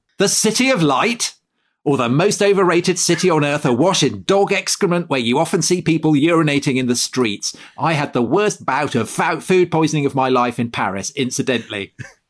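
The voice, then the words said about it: Bluff English co-host impression. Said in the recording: “You did my voice perfectly. ... John Bull speaks.”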